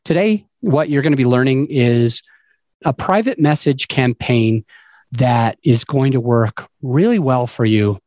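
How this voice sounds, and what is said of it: Hoarse voice. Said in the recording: “my voice is a bit hoarse. I am getting over a cold... Excuse the voice.”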